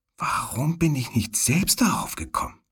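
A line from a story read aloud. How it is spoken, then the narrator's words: Quiet, astonished. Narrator (German): Ihre Augen waren aufgerissen, als sie leise sagte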